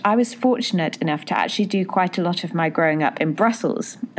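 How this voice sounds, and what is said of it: British accent. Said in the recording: “as you can probably tell from my accent, I'm British”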